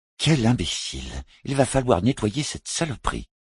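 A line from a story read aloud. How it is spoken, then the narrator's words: Grumbling. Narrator (French): grommela Poultry Wortling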